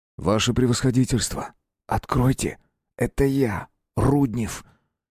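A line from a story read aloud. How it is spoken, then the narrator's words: Near whisper. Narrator (Russian): Тихо, почти шепотом сказал он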